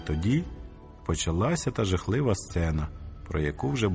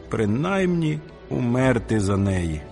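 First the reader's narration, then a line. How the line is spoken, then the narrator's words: Groaning in dismay. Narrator (Ukrainian): застогнавши, коли пригадав, що немає меча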